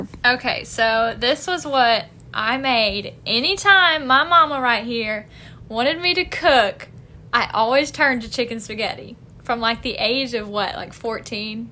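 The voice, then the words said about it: Southern American accent. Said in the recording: “She's from the South, if you can't tell. ... I tend to talk more Southern whenever I'm nervous.”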